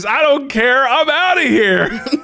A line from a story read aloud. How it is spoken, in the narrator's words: he literally screams in her face